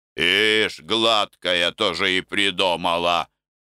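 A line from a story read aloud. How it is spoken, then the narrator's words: Grumbling. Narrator (Russian): ворчал Морок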